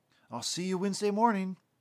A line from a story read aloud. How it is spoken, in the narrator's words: he was excitedly telling him